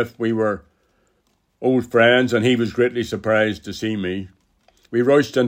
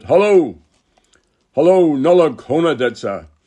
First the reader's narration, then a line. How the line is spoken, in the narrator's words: Marshall, who copped on immediately to what I was at, shouted